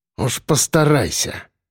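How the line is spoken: Muttered. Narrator (Russian): пробормотал

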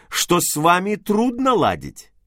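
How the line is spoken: Slightly irritated. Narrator (Russian): прибавил я немного раздраженно

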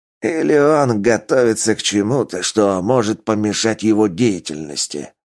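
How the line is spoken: Hoarse rasp. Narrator (Russian): прохрипел Ойла

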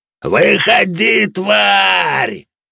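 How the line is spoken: Roared. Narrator (Russian): взревел лидер рейдеров

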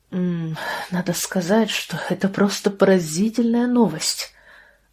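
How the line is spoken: Breathed out. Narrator (Russian): выдохнула Сэйди

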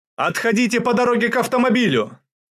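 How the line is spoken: Shouting over gunfire. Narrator (Russian): заглушая стрекот автоматов, крикнул Шубин

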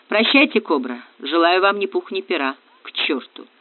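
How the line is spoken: Muttered. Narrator (Russian): пробормотал Ратибор

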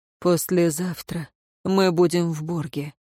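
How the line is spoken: Quiet. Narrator (Russian): негромко сказал он

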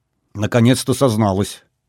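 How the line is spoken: Joyless snort. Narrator (Russian): невесело хмыкнул Владимир

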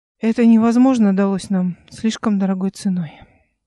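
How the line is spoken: Sigh. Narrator (Russian): вздохнул Эли Фарим

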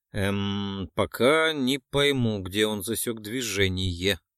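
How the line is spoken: Uncertain reply. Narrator (Russian): неуверенно ответил он

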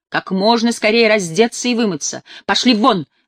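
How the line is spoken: Barked, in Polish. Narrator (Russian): рявкнула я по-польски

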